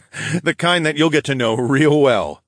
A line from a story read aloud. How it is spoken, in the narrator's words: I laughed